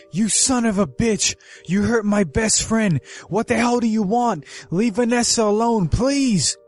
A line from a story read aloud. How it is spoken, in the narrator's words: Into the phone yelling